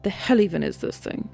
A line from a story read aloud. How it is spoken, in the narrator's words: He mutters